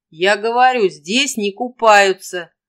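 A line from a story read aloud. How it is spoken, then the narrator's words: Loud, as to deaf. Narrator (Russian): громко, словно он разговаривал с глухой, сказал юноша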